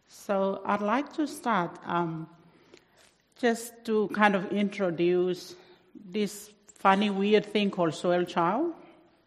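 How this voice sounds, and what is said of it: Heavy non-native accent. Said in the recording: “my accent is a bit heavy as well”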